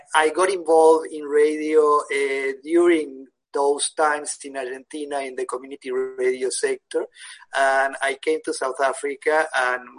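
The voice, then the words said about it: Argentinian Spanish-accented English. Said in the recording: “the accent, I think, puts me away. I was born in Argentina, in Buenos Aires”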